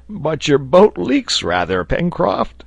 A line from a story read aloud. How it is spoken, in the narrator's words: Neb cried